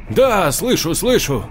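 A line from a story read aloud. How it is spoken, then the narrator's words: Joyful. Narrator (Russian): радостно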